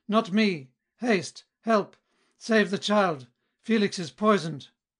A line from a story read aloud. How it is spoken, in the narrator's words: With a choked and faltering voice, then loudly and violently he spoke and cried